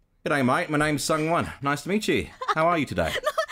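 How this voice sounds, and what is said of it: Attempted Australian accent, quite good. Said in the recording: “I have to try to do it ... You're really good ... It's really good.”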